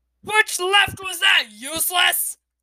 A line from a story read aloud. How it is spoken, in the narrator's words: Kestrel bellowed in his ear